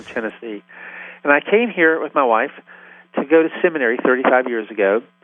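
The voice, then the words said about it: Southern US accent. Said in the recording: “if you can't tell it by now from my accent, I'm from the South”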